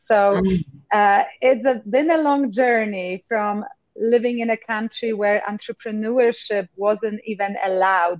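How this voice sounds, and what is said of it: Polish Eastern European accent. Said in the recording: “it must be Eastern Texas accent, you were close, but you didn't quite hit it. It's Eastern Europe, Poland to be exact”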